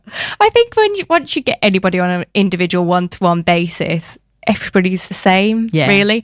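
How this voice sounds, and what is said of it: Northern English accent. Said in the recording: “Her husband's family are all from Lancashire, Torrington, near Bury. Lovely to hear the accent ... it's very nice to hear a northern accent”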